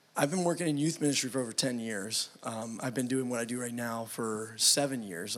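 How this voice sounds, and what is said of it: Strained, worn-out voice. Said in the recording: “my voice is suffering a little from it”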